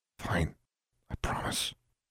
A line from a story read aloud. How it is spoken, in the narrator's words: Alexandra whispered back